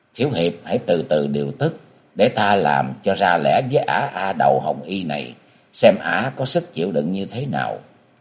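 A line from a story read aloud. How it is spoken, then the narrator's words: Soft, quiet voice. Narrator (Vietnamese): thiếu nữ áo vàng nhỏ giọng nói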